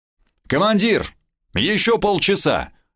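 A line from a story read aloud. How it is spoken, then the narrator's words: Shouted from below. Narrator (Russian): крикнул снизу Ватяков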